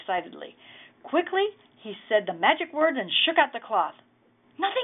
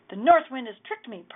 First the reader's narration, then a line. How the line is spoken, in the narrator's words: Per muttered angrily